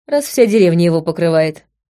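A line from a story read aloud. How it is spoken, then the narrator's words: Wry snort. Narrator (Russian): хмыкнула я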